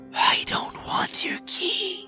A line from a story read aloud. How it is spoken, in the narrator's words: Typhon hisses